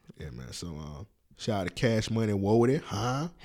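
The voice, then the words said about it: Poor attempted New Orleans accent. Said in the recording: “My New Orleans accent is terrible.”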